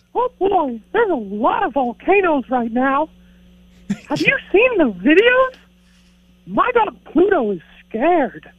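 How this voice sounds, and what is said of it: Mickey Mouse cartoon voice. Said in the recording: “Mickey, can you say something about volcanoes for us? ... That's a hard impersonation to do.”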